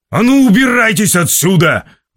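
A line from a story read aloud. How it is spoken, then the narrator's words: Roared. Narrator (Russian): взревел Вилсон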